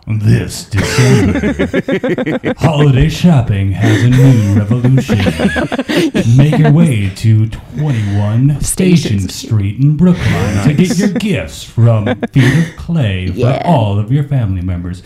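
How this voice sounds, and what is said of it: Dramatic movie voice. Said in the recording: “can you say that in a movie voice?”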